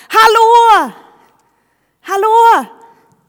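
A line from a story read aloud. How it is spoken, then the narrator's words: Shouting. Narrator (Swedish): han ropar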